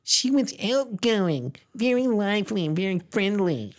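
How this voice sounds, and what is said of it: Imitated voice of a woman. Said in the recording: “Let me try and do her voice. ... Did that sound like Katie Orphan?”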